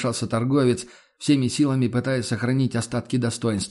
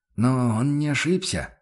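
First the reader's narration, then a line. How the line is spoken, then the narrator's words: Timid remark. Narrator (Russian): робко заметил Альфред Велли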